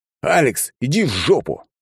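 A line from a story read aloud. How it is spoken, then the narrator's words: Group barking in unison. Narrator (Russian): в три глотки рявкнула группа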